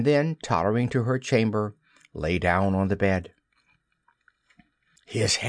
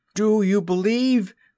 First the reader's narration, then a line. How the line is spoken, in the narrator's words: he cried